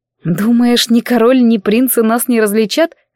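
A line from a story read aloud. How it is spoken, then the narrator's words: Laughing. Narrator (Russian): рассмеялась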